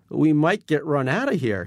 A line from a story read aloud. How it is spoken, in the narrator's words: says nervously